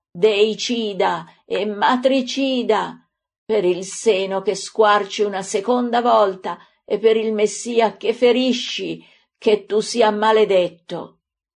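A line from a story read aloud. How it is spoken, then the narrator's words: Anguished scream of pain. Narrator (Italian): la misera, colpita con un calcio brutale all'inguine, stramazza gridando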